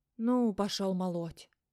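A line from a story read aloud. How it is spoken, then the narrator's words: Grumbling. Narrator (Russian): ворчал чертополох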